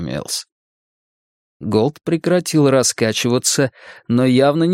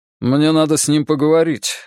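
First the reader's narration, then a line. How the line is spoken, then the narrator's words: Curt, clipped. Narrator (Russian): отрывисто произнес Голд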